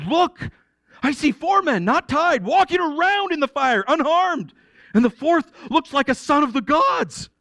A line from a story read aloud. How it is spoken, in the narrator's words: He exclaimed